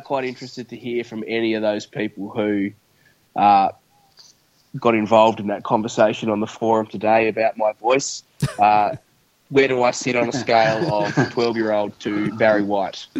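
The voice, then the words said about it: Sore-throated, lower-pitched voice. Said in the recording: “I've got a bit of a sore throat, actually, so I'm probably a one pitch lower than I normally would be”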